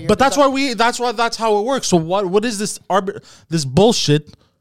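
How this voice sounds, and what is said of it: Yelling angrily. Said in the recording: “Why are you yelling at me about it? ... I'm yelling in general”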